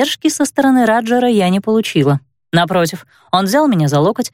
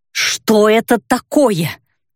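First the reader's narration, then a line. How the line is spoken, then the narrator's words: Indignant grunting. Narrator (Russian): возмущенно прокряхтела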